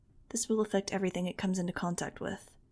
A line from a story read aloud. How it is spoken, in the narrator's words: he murmured